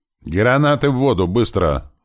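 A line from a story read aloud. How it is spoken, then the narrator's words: Shout. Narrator (Russian): снова закричал я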